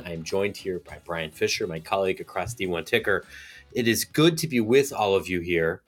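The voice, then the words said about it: Weird-sounding voice, pausing for breath. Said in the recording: “my voice sounds a little bit weird, if I'm having to stop for breath a little bit more often”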